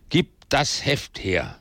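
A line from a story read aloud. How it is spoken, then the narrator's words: Thunderous command. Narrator (German): befahl mit Donnerstimme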